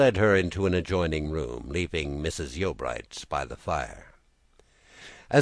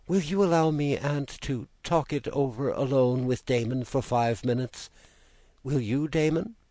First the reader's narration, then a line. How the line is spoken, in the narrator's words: she now said anxiously